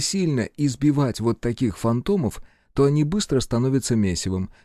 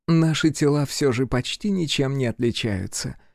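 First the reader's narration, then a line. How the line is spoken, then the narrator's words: Joyless chuckle. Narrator (Russian): невесело хохотнула женщина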